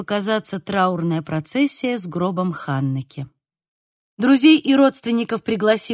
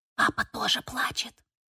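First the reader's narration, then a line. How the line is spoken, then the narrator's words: Child whispering in ear. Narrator (Russian): шепнула Софи на ухо старшей сестре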